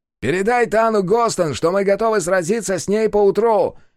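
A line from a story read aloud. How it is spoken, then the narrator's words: Shout. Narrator (Russian): крикнул Пума-Ему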